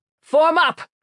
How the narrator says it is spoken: Koyich shouted

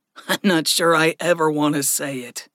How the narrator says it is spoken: Gregory snorted

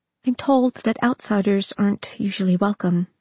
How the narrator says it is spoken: she said

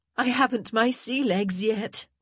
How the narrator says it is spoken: she laughed

